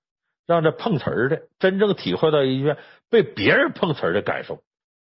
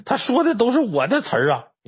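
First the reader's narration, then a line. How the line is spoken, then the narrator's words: Anxious old woman shouting. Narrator (Chinese): 这老太太给急的，在那喊呢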